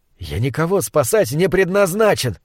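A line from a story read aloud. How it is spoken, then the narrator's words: Snapping retort. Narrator (Russian): огрызнулся я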